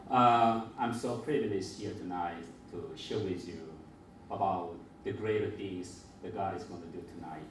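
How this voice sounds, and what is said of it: Mixed Filipino and Korean Asian accent. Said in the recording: “my accent is a mixture of the Filipino, Korean, Asian, and others”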